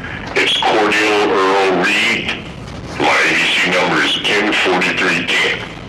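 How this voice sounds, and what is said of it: Deep, resonant male voice. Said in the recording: “You certainly have a deep voice. We'll have no trouble hearing you.”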